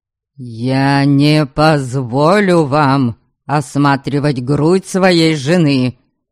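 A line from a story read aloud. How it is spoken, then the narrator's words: Menacing scolding. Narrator (Russian): Грозно выговаривал Дориан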